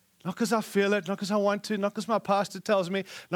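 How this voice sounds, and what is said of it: Speaks with a funny accent. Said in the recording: “funny accent”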